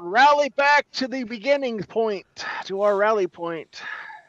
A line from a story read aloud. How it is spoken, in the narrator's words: Nash yells out